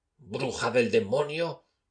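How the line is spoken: Exclaiming through gritted teeth. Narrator (Spanish): exclamó rechinando los dientes

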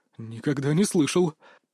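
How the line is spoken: Strained mutter. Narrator (Russian): пробормотал вампир, пытаясь сохранить хотя бы видимость самообладания

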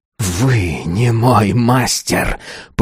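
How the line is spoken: Hiss. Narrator (Russian): прошипел Азар

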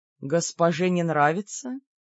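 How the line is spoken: Languid purr. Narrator (Russian): Томно промурлыкал Бер

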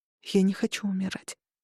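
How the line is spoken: Whispered. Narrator (Russian): прошептала я

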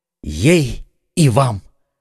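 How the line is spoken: Exclaimed. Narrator (Russian): воскликнул Д'Артаньян

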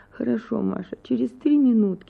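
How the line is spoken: Pleading. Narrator (Russian): сказала Анна Акимовна умоляющим голосом

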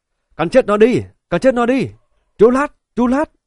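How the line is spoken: Crowd shouting. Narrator (Vietnamese): Những người xung quanh la hét

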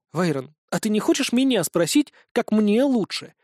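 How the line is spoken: Indignant question. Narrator (Russian): возмущенно поинтересовалась Линара

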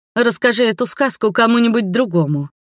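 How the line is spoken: Snort. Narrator (Russian): фыркнула

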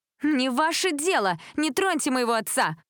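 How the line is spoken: Screaming. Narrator (Russian): закричала Лила

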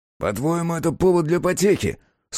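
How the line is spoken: Through gritted teeth. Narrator (Russian): сквозь зубы процедил Гестас

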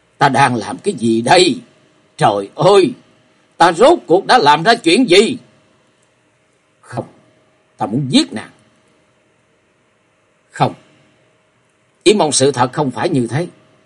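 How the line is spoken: Frenzied loud scream. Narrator (Vietnamese): Hắn cuồng loạn hét lớn

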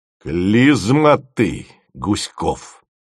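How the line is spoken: Icy voice. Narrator (Russian): сказал он ледяным голосом

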